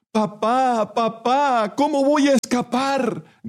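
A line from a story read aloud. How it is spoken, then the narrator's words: Child shouting. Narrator (Spanish): gritó el niño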